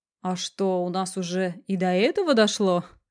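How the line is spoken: Snorting. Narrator (Russian): хмыкнул Курилов-старший

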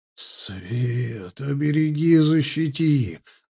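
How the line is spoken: Breathed out. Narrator (Russian): выдохнул кто-то из плащей

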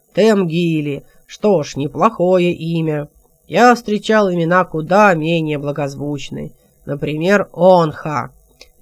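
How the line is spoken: Deafening guffaw. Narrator (Russian): оглушительно захохотал

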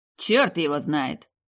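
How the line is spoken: Grumbling. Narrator (Russian): ближайший собеседник вначале проворчал

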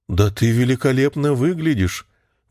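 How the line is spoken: Exclaiming. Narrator (Russian): воскликнула Матильда, быстро заменив равнодушной и пустой улыбкой мелькнувшее было на ее лице выражение ужаса и растерянности

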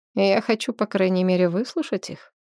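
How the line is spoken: Plain. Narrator (Russian): сказал царевич

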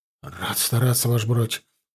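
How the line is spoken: Mumbled through dry lips. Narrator (Russian): пересохшими губами пробормотал тот

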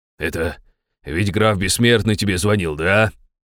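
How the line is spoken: Displeased grumble. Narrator (Russian): недовольно проворчал Добрыня

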